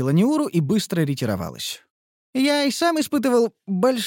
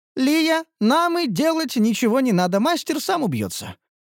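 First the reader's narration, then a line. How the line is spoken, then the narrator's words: Joyful. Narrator (Russian): радостно произнесла Ниуру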